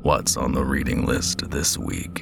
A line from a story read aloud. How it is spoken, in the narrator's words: Jenkins asked in his grinding, gravel voice